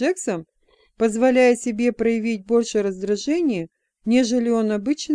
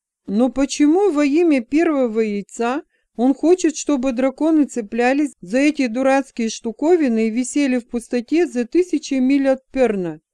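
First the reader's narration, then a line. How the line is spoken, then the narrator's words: Exclamation. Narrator (Russian): воскликнул Флар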